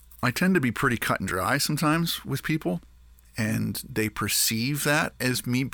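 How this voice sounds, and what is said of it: Usual voice. Nothing is said of it.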